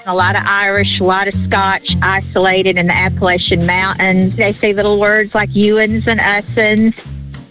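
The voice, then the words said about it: Eastern Kentucky accent. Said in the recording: “This is an Eastern Kentucky accent.”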